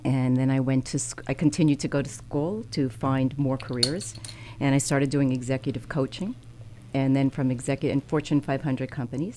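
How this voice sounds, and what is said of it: Long Island New York accent. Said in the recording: “I grew up in Long Island in New York. ... I could tell by the accent.”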